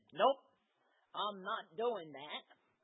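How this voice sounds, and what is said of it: Put-on Southern accent. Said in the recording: “Good Southern accent.”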